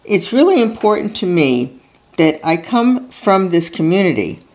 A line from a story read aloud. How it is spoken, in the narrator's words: Plattner tells them, his voice faltering